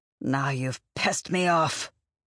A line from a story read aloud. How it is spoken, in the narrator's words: she snarled, her voice unnaturally guttural